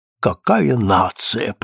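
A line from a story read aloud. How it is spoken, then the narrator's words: Old man whispering. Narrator (Russian): прошептал старик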